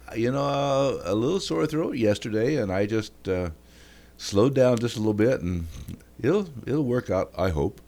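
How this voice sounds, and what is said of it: Stuffy, congested voice. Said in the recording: “You sound a little stuffy.”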